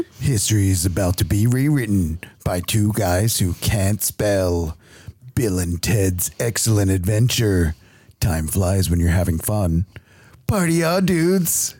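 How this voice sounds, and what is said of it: Movie trailer narrator voice. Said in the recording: “give me your best trailer voice”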